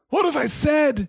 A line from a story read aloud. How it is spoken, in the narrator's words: he cried